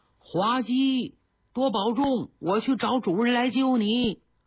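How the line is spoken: Shouting. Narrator (Chinese): 张若没有办法，冲着石镇喊了一嗓子

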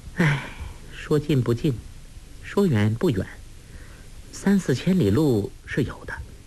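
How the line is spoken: Soft sigh. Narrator (Chinese): 黄蓉轻轻叹了口气说

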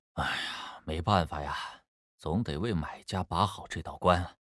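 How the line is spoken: Sighing. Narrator (Chinese): 赵志远叹息

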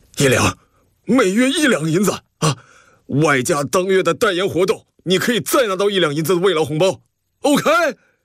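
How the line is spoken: Anguished, through gritted teeth. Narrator (Chinese): 张老板咬牙，痛不欲生的说道

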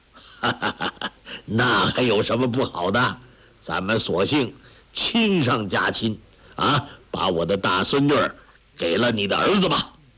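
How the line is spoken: Delighted hearty laugh. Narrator (Chinese): 王罕心中甚喜，呵呵地笑道

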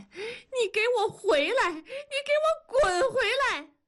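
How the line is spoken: Shouting. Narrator (Chinese): 文丽捂着耳朵喊

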